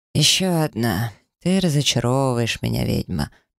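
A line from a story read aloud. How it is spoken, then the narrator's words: Purring. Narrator (Russian): промурлыкал Снежный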